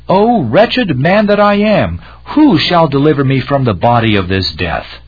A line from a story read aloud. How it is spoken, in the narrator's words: Frequently he cried out with Paul